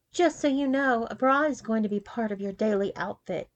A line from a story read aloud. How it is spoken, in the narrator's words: she said coldly